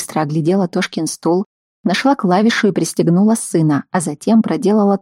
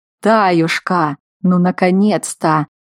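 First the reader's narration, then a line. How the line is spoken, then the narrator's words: Deep booming voice. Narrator (Russian): пробасил с порога Захар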